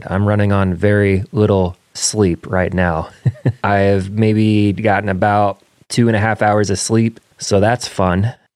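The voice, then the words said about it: Tired-sounding voice. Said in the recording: “Maybe you can hear it in my voice. Does it sound tired to you? I feel tired.”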